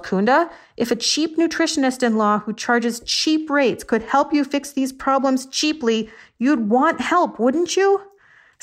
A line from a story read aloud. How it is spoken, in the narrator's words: I yelled